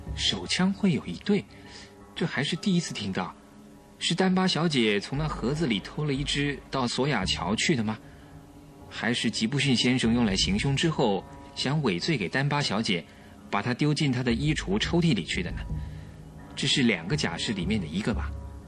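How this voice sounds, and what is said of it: Speaking in a low voice. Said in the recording (Chinese): “小声地对福尔摩斯说”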